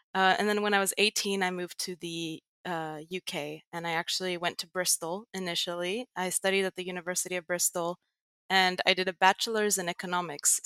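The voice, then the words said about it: American accent. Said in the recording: “I have sort of an American accent”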